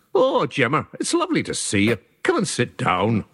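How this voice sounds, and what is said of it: Put-on Irish accent. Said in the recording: “in an Irish accent.”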